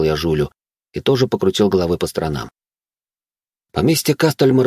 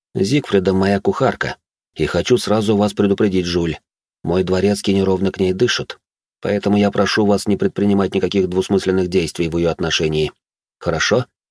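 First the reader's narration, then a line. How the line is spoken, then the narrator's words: Serious tone. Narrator (Russian): произнес я серьезным тоном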